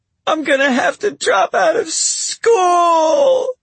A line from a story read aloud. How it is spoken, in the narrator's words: Laura howls